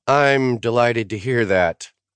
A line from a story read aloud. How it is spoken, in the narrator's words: she said dryly